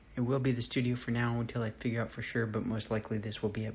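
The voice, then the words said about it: Whispering. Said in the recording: “I'm whispering because the kids are asleep”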